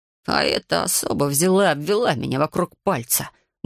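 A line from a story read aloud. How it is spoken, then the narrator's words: Grumbling mutter. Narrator (Russian): буркнул Ларри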